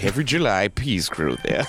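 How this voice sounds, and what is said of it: Imitates another person's voice. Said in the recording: “his Orson Welles impression”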